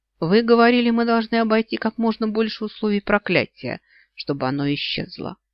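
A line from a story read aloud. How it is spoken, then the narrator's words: Cold. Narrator (Russian): холодно произнес Йен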